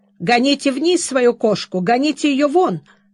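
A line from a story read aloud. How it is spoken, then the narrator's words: Angry old woman shouting. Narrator (Russian): сердито закричала старушка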